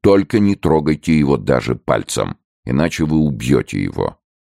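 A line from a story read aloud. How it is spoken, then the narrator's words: Stern. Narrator (Russian): брат Сильвен строго добавил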